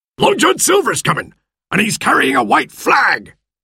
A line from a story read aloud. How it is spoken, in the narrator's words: he shouted